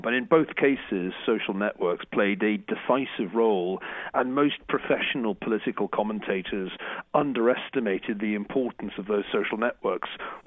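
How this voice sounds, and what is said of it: British accent. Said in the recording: “You can tell from my funny accent that I'm British”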